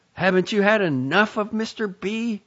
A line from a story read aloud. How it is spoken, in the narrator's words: One of his relatives called out to him